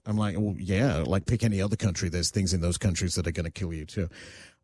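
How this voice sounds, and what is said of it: Australian accent. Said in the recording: “they hear my accent, they're like, oh, you're from Australia?”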